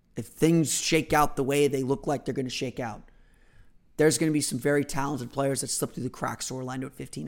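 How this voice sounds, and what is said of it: Tired, worn-down voice, cracking. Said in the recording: “I am a little worn down ... I might be getting a little sick here ... you can tell my voice is cracking a little bit”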